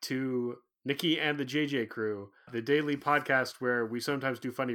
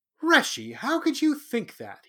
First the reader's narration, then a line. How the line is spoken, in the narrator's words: he asked, his voice slightly offended